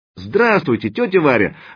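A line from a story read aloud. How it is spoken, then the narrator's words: Joyful exclamation, young woman. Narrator (Russian): радостно воскликнула девушка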